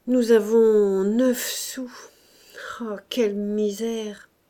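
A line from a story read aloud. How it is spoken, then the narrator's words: Grumbling. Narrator (French): il gronda enfin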